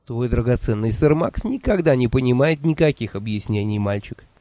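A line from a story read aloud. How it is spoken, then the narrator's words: Mumbled through laughter. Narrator (Russian): Сквозь смех пробормотала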